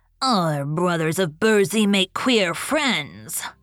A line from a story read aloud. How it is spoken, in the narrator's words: grumbled an ancient Nook